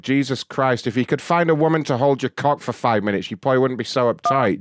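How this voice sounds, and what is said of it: Non-American accent. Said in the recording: “He needs an American to talk to. He does not like my strange accent.”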